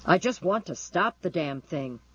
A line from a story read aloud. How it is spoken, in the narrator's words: he said angrily